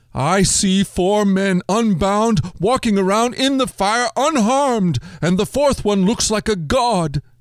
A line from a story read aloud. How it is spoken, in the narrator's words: Nebuchadnezzar shouted